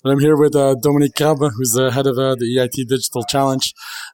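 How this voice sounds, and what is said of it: Strained, worn-out voice. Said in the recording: “I apologize for my voice, too much karaoke.”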